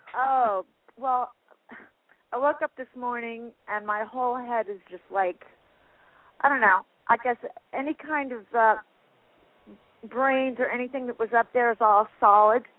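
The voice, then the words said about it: Congested, head-cold voice. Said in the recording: “I think I have a head cold or something ... my voice might not sound like me, but I have a weird voice going on today”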